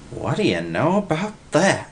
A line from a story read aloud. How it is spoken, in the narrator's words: Willie gasped